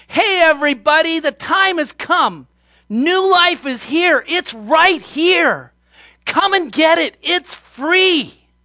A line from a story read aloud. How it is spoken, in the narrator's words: Jesus called out